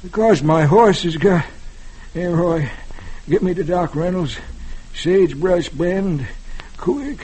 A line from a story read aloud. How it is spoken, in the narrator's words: Chubby says weakly